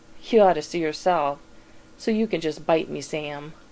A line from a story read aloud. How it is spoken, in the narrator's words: Dean growls